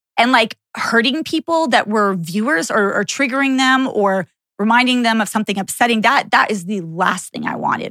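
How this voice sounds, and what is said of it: Emotional, slightly choked-up voice. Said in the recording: “the reason I'm getting choked up a little bit right now”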